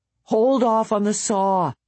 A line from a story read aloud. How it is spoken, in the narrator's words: Dave yelled